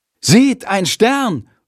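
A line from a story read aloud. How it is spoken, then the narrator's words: Loud call. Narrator (German): ruft Jendrik laut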